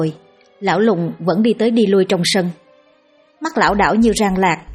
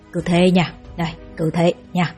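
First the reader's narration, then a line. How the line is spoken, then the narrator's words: Whispering into ear. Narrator (Vietnamese): Lão lùng ghé vào tai ánh thì thầm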